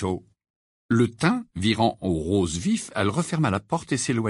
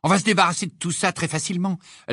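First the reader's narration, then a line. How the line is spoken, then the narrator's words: Exclaiming. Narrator (French): s'écria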